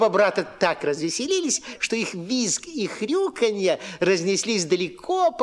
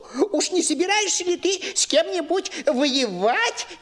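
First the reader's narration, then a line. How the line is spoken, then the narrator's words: Grunted cheerfully. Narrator (Russian): весело прохрюкал Ниф-Ниф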